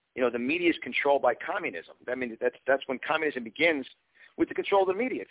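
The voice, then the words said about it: Distinct New York accent. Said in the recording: “I have a very distinct accent from New York. I was born and raised in Yonkers”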